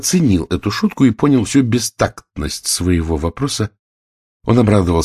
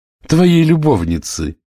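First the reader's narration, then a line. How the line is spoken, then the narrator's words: Laughing. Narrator (Russian): засмеялась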